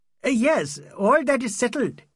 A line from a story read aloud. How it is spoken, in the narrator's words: he cried